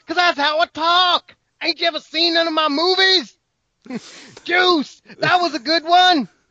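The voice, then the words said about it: Yelling imitation of another person's voice. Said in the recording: “Samuel Jackson! ... can you stop yelling? ... No, I can't stop yelling”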